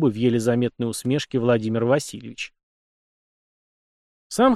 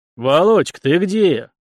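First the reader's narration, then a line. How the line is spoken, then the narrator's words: Rich bass call from doorway. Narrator (Russian): вопросил кто-то сочным басом с порога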